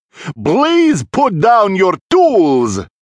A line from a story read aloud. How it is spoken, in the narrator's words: came the reply, in a very calm yet booming voice